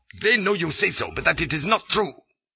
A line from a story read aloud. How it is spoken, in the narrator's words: puts in Dinaneth sternly